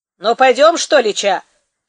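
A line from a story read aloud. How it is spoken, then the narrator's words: Shouted again. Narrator (Russian): крикнул опять Якуша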